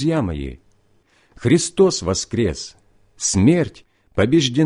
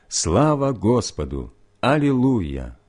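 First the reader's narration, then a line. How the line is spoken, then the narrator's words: Crowd in unison. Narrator (Russian): Все собрание дружным голосом повторило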